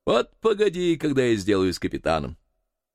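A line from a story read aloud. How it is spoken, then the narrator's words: Laughing. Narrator (Russian): засмеялся и сказал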